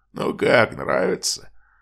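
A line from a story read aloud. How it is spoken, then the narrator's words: Brothers' snorting laughter. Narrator (Russian): хрюкая засмеялись братья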